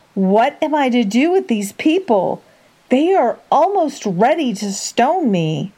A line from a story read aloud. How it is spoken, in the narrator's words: Moses cried to the Lord